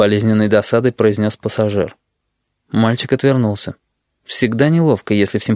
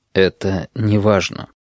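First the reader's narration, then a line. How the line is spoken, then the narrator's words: Quiet. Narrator (Russian): тихо сказал пассажир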